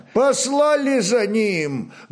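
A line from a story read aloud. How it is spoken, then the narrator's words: Loud male answer. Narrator (Russian): громко ответил тот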